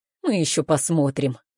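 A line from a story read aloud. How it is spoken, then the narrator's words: Calm. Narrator (Russian): говорит он спокойно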